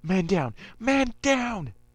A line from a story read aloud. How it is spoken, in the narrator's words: Another one yelled